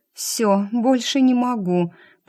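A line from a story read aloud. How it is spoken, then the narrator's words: Mother moaning from behind. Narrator (Russian): простонала за спиной мама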